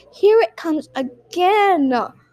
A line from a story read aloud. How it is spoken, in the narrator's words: groaned Peppa